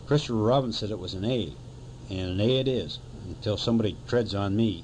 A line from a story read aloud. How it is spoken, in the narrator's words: Eeyore added sternly